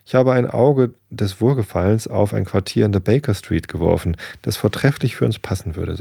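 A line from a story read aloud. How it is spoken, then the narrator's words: Plain. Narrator (German): sagte er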